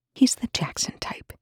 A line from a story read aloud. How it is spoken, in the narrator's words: he whispered